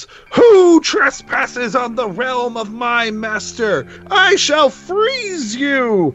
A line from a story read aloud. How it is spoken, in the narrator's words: she shouts